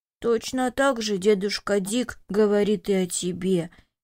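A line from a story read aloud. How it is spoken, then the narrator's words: Sad remark. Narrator (Russian): печально заметил Виктор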